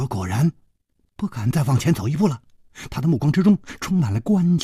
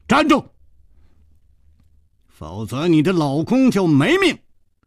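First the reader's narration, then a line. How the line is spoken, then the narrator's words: Shouting. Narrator (Chinese): 楚留香喊道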